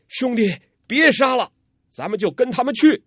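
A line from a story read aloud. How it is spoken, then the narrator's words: Loud shout. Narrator (Chinese): 当下高声叫道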